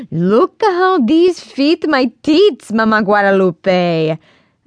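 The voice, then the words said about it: Woman's voice, heavy Mexican accent. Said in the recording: “the familiar melodic sounds of a woman's voice ... a woman with a heavy Mexican accent”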